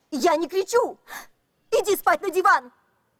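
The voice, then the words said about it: Shouting angrily. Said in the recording (Russian): “Не кричи”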